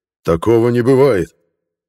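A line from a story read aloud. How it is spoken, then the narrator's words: Bark, old man. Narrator (Russian): рявкнул старый пилот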